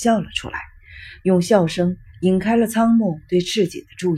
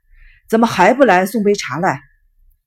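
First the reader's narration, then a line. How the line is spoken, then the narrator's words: Helpless, resigned. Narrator (Chinese): 用很无奈的口吻说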